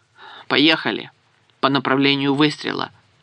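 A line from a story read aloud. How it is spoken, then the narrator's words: Rueful sigh. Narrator (Russian): сокрушенно вздохнул Обрезков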